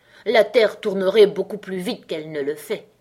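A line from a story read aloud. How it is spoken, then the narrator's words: Hoarse grumble, duchess. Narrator (French): grommela la duchesse d'une voix rauque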